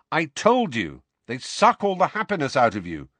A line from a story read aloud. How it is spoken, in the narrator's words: said Harry